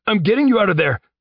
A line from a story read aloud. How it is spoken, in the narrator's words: Tyler shouted